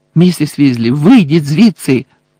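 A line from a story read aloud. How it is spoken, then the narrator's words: Shout. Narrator (Ukrainian): крикнув Гаррі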